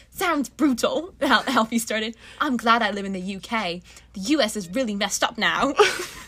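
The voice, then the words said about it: Put-on British accent. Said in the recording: “I'm doing him in a British accent.”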